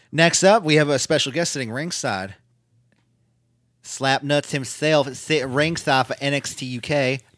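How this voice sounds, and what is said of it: Dusty Rhodes impression. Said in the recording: “doing the Dusty voice, because I tried to do a Jarrett voice”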